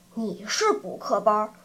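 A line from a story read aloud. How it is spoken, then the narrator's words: Long sigh. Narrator (Chinese): 小胖子长叹一声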